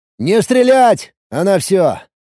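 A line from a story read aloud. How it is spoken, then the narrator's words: Shouted over radio. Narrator (Russian): крикнул по рации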